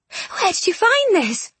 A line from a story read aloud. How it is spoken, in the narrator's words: she gasped